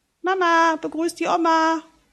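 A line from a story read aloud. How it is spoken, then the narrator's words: Calling from hallway. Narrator (German): ruft es aus dem Flur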